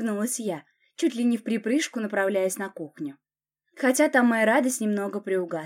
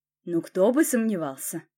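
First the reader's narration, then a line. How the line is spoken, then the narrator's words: Smirking grunt. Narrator (Russian): хмыкнул Власов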